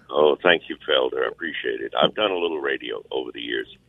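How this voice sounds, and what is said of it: Great radio voice. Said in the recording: “What a great voice, radio voice.”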